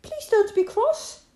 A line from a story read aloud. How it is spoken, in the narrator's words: pleaded Molly